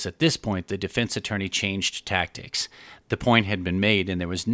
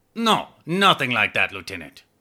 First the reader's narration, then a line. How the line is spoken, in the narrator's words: the little man impatiently answered with